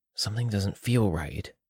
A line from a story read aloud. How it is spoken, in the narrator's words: I whispered to Harriet